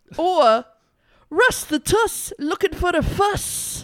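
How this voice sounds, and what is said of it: Bad attempt at Welsh accent. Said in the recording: “What kind of accent was that even meant to be? ... that was like half Scottish, half orc. ... That's Welsh. That's 100% Welsh.”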